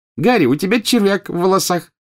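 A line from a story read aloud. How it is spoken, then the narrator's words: Cheerful. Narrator (Russian): весело сообщила Джинни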